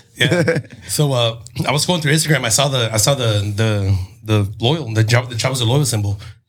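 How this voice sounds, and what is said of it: Hoarse, nearly lost voice. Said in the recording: “Sorry, I lost my voice from Tuesday.”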